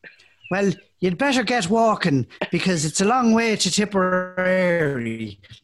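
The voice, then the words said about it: Exaggerated movie-style Irish accent. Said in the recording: “Irish, if I was to finish off the podcast in the way that Irish people talk in this movie, then that would be the way that I'd have to talk”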